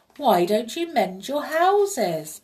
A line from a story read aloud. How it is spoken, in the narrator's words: he cried